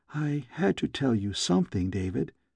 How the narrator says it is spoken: she whispered

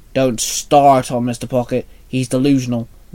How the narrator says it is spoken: William snapped

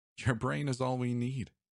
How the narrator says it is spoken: said

